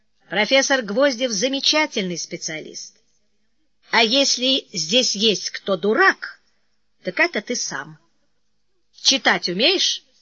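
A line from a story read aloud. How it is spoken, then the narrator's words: Calm rebuke. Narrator (Russian): Кони спокойно осадил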